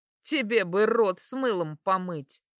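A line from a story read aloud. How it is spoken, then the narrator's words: Smirking snort. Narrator (Russian): хмыкнула я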